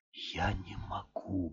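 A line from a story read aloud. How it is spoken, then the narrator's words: Muttering. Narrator (Russian): бормотал он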